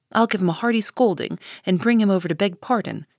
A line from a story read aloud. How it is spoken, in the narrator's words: cried Jo, burning to execute immediate justice